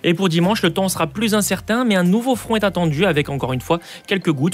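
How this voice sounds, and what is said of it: Southern French accent. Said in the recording (French): “la voix de ... et son accent du Sud”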